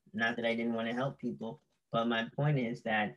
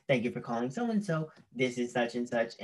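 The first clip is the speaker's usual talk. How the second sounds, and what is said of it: Polite customer service voice. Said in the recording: “customer service voice”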